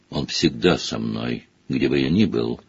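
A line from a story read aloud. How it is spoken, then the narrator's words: Soft reply. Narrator (Russian): мягко ответил Квиррелл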